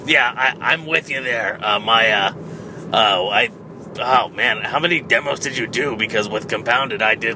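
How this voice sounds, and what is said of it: Strained, hoarse voice. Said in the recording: “sorry for my voice”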